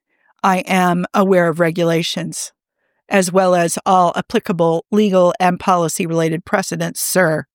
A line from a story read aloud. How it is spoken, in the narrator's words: he says